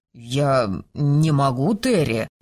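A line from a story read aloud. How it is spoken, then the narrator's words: Mumbling. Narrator (Russian): промямлил герцог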